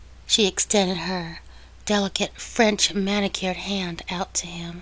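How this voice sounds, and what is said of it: Usual voice. Nothing is said of it.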